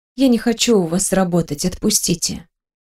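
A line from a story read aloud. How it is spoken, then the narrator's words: Whisper. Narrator (Russian): прошептала я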